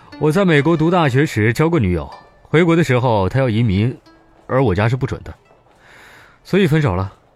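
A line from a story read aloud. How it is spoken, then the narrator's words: Light smile. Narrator (Chinese): 潘子敖笑了笑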